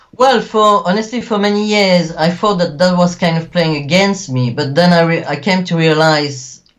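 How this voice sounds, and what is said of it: French-Belgian accent with mixed influences. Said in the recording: “obviously you have the very interesting accent. You can definitely hear the French-Belgian influence, a little bit of mix of a couple other things as well”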